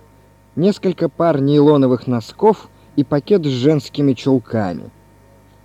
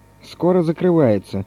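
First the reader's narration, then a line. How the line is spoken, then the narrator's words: Calm warning. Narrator (Russian): спокойно предупредил Леон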